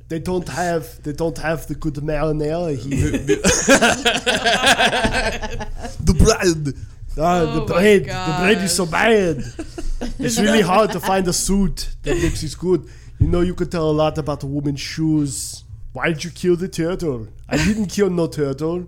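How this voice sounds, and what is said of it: Arnold Schwarzenegger doing Italian accent. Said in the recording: “Arnie, could have been in this. ... With an Italian accent?”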